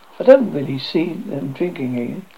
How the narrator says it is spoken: Michael explained with a laugh

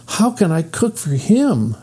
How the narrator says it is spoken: she cried

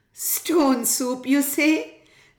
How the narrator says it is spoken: laughed the woman

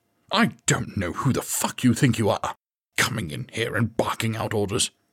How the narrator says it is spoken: he snarled

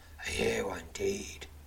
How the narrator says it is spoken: says the masked swordsman, his voice laced with scorn

